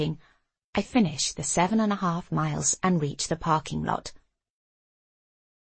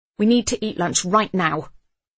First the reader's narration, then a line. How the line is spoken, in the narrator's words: I say angrily